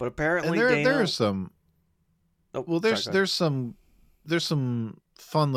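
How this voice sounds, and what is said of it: Usual voice. Nothing is said of it.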